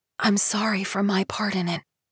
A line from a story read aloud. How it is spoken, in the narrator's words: Leland whispered